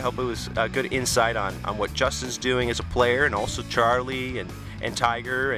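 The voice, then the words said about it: Tired, worn-out voice. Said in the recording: “I'm exhausted. You can probably hear that in my voice,”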